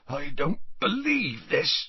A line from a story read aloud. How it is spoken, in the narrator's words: said Hagrid hoarsely